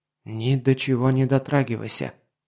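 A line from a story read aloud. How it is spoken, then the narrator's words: Whisper. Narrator (Russian): шепнул он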